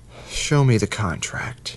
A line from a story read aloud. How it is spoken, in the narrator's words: he answered with a contented sigh